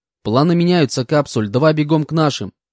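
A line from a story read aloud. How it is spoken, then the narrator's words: Sharp shout. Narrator (Russian): прикрикнул я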